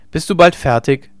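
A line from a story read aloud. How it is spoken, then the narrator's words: Call. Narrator (German): rief Hauke ihr zu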